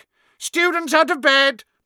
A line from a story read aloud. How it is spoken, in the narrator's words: Peeves bellowed